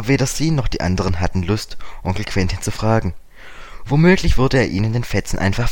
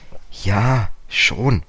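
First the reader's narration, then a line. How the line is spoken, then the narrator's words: Hesitant. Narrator (German): sagte George zögernd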